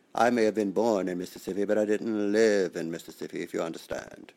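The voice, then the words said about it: Slight Southern drawl. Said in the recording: “accent? ... A little bit of southern drawl”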